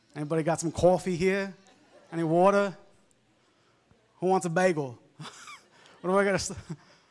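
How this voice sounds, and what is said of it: New York accent. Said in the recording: “accent. And it used to be stronger, New York accent”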